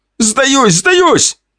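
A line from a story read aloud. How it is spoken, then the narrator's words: Shouting out. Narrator (Russian): выкрикнул тот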